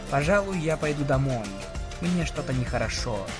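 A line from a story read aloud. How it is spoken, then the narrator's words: Barely audible whisper. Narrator (Russian): почти неслышно прошептала Сан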